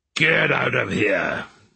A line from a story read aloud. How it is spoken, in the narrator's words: he growled at her